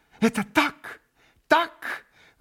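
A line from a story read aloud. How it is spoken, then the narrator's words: Exclaimed. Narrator (Russian): воскликнула была госпожа Хохлакова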